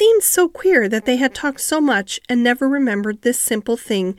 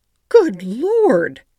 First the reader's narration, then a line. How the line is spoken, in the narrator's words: exclaimed poor Mrs